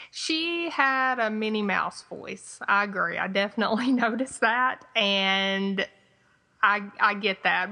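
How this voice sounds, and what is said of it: Twangy Southern American accent. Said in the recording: “my twangy Southern accent”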